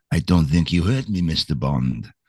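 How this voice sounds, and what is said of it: Put-on Russian accent. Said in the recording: “You think you could do a Russian accent? ... Fucking Russian accent? ... So I'm talking like a Russian.”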